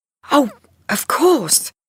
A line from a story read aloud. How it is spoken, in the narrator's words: cried Linda